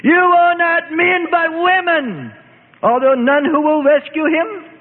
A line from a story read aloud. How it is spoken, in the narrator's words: her aged mother screamed